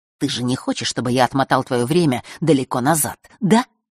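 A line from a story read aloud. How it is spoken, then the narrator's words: Mocking whisper. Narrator (Russian): издевательски прошептал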